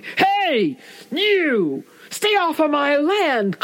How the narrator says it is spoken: he hollered

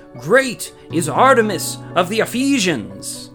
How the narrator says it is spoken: beside themselves with anger and began to shout

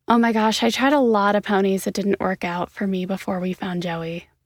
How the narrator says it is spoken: said

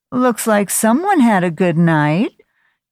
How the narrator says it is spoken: Judy, the head nurse, cackled

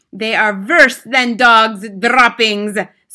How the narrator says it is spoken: screeched the Grand High Witch

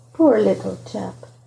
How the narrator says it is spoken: he said softly to himself

